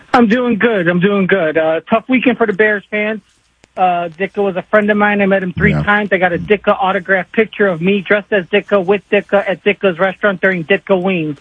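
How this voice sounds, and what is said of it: Strong regional American accent. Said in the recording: “you sounded like an SNL skit right there, pal ... when I get sad and excited, the accent comes out a little more”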